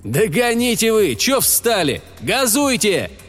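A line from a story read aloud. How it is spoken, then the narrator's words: Angry shout. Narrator (Russian): крикнул со злостью снайпер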